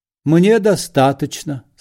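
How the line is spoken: Solemn statement. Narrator (Russian): сказал Бендер торжественно

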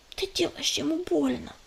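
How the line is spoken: Whisper. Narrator (Russian): прошептала белка

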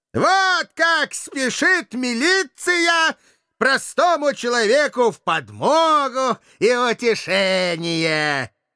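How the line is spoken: Loud address to everyone. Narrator (Russian): громко начал опытный скандалист, обращаясь, собственно, не к кому, но ко всем в целом

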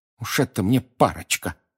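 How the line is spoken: Angry grumbling woman. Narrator (Russian): гневно пробурчала она

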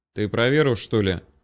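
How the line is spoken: Tired sigh. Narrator (Russian): устало вздохнул парень

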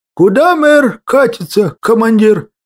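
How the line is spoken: Mock sigh. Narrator (Russian): Притворно вздохнув, выдал я

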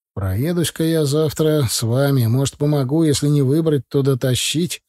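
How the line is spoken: Grim. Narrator (Russian): сказал я мрачно

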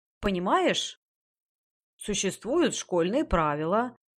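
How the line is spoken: Scolding, less confident. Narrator (Russian): продолжала выговаривать госпожа Ноно, но уже менее уверенным тоном

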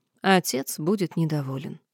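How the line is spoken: Sighing. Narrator (Russian): я вздохнула

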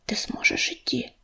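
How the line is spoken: Whisper in ear. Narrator (Russian): прошептала она ему на ухо

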